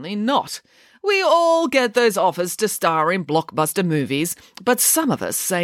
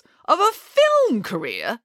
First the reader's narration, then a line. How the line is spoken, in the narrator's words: exclaimed Nanny Piggins